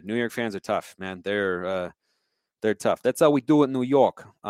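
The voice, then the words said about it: Put-on New York accent, done badly. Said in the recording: “I apologize if that was a terrible accent, but that is kind of how they do it in New York.”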